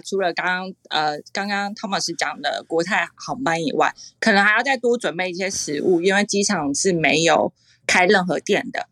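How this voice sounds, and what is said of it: Taiwanese-accented Mandarin. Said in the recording (Chinese): “感觉是台湾口音”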